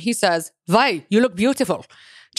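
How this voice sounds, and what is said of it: Put-on German accent. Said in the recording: “with a German accent ... The German accent ... that's perfect ... I could just convince myself I'm German”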